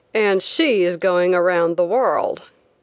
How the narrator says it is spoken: one man said sneeringly

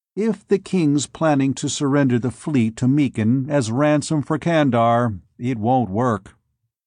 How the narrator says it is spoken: Bors said evenly

